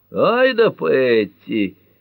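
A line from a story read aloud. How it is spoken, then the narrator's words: Man exclaiming. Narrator (Russian): воскликнул мужчина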